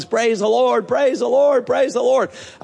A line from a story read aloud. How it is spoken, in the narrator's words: shouting at the top of her lungs